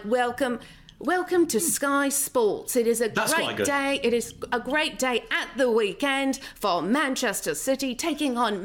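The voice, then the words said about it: Put-on British accent. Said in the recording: “this British accent ... that British accent”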